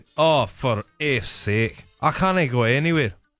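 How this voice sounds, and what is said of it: Put-on Glasgow Scottish accent. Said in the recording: “From Glasgow... Is that racist, that accent?”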